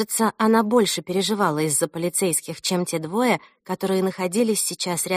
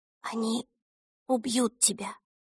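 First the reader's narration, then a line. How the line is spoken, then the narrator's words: Whispered. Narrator (Russian): прошептала Эльса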